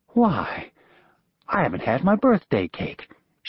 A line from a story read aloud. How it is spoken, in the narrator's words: she said as brightly as she could